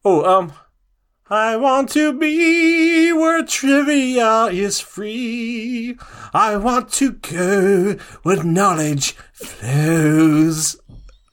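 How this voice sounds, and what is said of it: Sung line switching into accent. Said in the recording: “you start with no accent and then all of a sudden bust into an accent”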